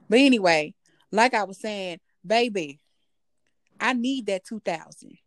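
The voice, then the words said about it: Southern country accent. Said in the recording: “It's the country accent for me”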